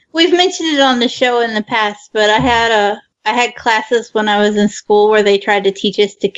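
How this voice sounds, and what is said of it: Slight accent with stretched O's. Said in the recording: “you have a slight, like, Minnesota accent ... it's a slight, it sounds like a friend of mine from Minnesota, so it's just a stretching of the O's a little bit”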